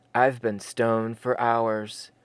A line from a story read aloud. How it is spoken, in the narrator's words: Jeremy said with a sigh